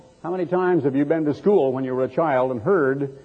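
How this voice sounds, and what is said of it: Usual voice. Nothing is said of it.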